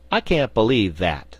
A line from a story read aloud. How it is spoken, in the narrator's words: said Button-Bright